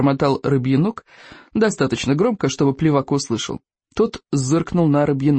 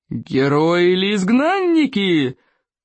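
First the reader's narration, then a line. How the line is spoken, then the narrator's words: Loud roar. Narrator (Russian): проревел крикливый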